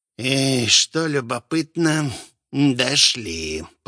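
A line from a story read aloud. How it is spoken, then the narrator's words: Mumbled. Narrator (Russian): пробормотал Лич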